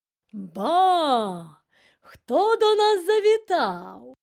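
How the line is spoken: Loud. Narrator (Ukrainian): голосно сказав він

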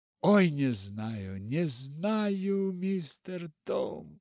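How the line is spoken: Moaning. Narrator (Russian): простонала Нэнси

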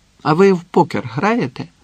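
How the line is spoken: Cheerful question. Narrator (Ukrainian): весело запитав Ніколай у Самада і Арчі

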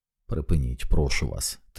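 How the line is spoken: Said quietly. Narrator (Ukrainian): тихо мовив

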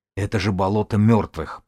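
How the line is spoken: Strangled wheezing voice. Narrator (Russian): просипел Тим сдавленным голосом

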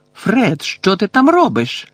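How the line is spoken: Exclamation. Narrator (Ukrainian): вигукнула місіс Візлі

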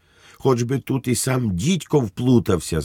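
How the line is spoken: Shrieked. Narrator (Ukrainian): заверещав на Швейка голова комісії

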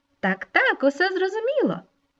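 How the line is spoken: Cheerful small creature chiming in. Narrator (Ukrainian): весело підхопила маленька м'ю

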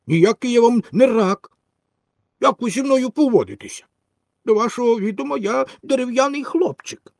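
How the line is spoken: Offended, angry reply. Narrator (Ukrainian): Пінокіо, образившись, що його мають за якогось рака, сердито отказав

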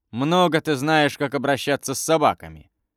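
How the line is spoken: Grumbling. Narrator (Russian): проворчал брат

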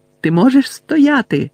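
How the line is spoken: Shouted right into ear. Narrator (Ukrainian): закричав він просто Невілові у вухо

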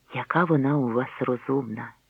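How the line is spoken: Whispering in ear. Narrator (Ukrainian): прошепотіла Маргарет мені на вухо

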